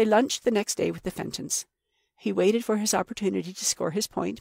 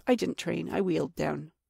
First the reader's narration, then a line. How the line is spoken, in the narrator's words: he said quite calmly